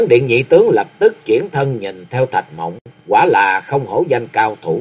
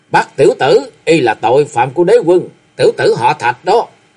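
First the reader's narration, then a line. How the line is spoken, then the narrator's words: Loud roar. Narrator (Vietnamese): Khâu Sĩ Trân gầm lớn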